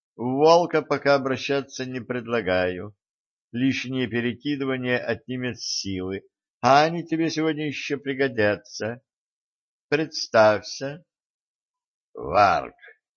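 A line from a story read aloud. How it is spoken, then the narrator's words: Gloomy grumble. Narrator (Russian): мрачно буркнул байкер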